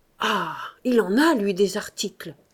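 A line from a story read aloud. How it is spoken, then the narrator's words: Sighed. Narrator (French): soupira Mahoudeau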